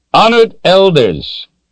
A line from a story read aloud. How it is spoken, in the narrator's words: he started in a loud, clear voice